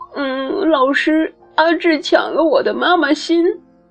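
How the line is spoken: Child crying. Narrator (Chinese): 小朋友哭着说

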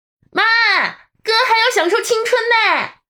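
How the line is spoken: Calling out. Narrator (Chinese): 陈月朝厨房喊

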